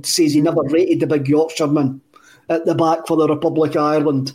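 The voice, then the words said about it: Bad Brian Clough impression. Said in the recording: “That's a very, very bad Brian Clough impression”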